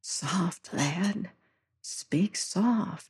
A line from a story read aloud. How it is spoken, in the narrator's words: whispered